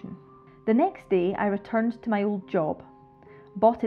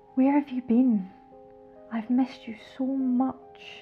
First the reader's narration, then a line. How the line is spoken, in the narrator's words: breathed huskily into my ear